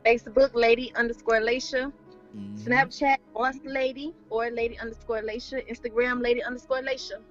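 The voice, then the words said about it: Country accent. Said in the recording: “y'all like that country accent”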